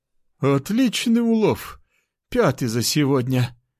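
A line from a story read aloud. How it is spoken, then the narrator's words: Breathless woman's exhale. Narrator (Russian): выдохнула беловолосая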